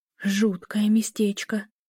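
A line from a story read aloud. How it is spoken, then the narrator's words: Frightened whisper. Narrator (Russian): прошептала Эля, ощущая себя жертвой, загнанной в ловушку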